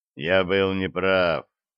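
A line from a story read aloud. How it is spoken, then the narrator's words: Calm. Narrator (Russian): также спокойно отвечает Лексли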